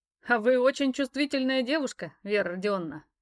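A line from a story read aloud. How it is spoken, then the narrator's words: Chuckling. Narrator (Russian): вновь хохотнул он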